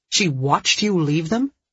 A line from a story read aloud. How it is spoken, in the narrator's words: Dee Dee asked sharply